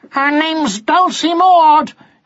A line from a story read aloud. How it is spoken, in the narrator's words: yelled Martin